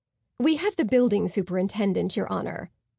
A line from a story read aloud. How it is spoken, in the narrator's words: the prosecutor said